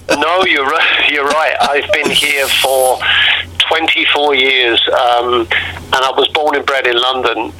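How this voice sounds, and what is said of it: British London accent, slightly mellowed. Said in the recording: “you haven't lost your British accent at all ... my accent is just mellowed a little bit. I've become mm. more Hugh Grant.”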